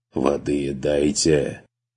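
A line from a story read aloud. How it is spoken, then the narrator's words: Hoarse, strained. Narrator (Russian): сипло выдавил эксперт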